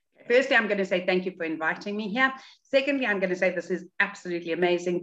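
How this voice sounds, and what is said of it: South African accent. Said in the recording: “accent ... I grew up in South Africa”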